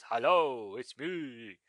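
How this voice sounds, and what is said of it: Very deep character voice. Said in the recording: “doing my voice... Very deep sort of voice.”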